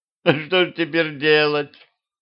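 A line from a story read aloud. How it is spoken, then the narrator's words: Sobbing. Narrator (Russian): всхлипнула она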